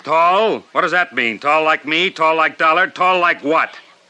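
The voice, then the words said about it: Raised, loud voice. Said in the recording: “I'm sorry I'm raising my voice”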